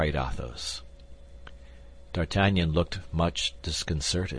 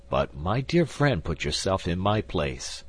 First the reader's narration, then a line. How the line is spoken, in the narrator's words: replied the musketeer